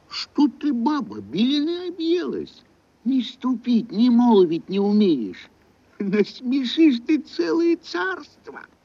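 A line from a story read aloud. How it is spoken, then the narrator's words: Frightened old man pleading. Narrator (Russian): Испугался старик, взмолился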